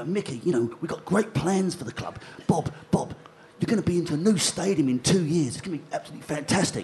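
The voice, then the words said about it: Reasonable Dick Knight impression. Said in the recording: “you do a reasonable Dick Knight impression.”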